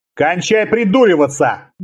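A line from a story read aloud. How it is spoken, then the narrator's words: Barked shout. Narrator (Russian): гаркнул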